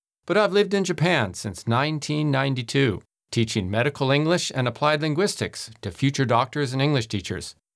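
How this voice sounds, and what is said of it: Relaxed American West Coast accent. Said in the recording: “my accent that I was born in the United States ... my relaxed and easygoing manner of speaking that I'm from San Francisco on California's West Coast”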